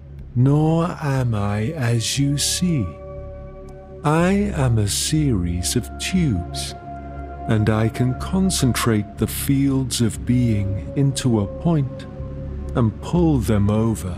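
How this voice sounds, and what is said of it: Low, silky, sing-song voice. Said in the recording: “His voice was low, silky. He had no trace of an Italian accent, just a sing-songy cadence”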